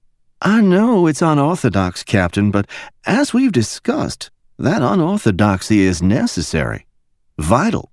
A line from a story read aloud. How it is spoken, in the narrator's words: Deploying her silkiest Alabama drawl, she answered him